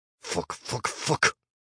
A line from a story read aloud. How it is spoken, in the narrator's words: Chris cursed, the words hissing out from between tightly clenched teeth